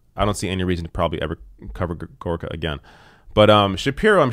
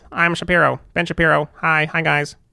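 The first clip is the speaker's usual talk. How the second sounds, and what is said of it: High-pitched Ben Shapiro impression. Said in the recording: “I'm sure I'll do Shapiro at some point... it's just like a high person's voice. It's not even necessarily Shapiro impression.”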